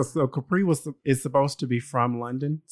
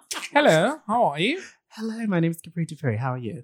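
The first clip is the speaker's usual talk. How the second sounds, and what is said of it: Put-on London accent, poorly done. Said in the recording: “supposed to speak in a London accent ... Horrible.”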